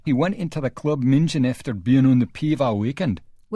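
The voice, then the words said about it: Bad attempt at thick Scottish accent. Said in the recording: “a thick Scottish brogue. I'll try to give you an example. This is your first bad accent warning... not only was that a bad accent... does it in an Irish accent”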